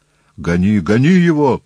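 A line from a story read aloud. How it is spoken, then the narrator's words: Terrified shout. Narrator (Russian): в ужасе закричал Деметрий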